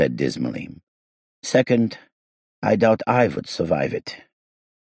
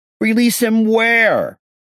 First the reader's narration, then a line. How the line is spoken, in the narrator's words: I shouted